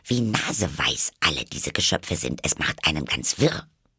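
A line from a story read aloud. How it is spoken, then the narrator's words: Muttering to herself. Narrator (German): murmelte vor sich hin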